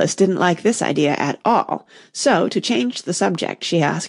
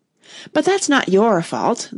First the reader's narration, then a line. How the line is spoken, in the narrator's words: the rose added kindly